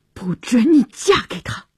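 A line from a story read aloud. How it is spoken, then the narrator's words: Through gritted teeth. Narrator (Chinese): 乔治咬牙切齿地说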